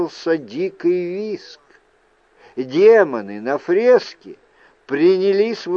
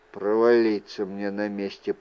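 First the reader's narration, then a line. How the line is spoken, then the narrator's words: Muttered. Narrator (Russian): пробормотал Люк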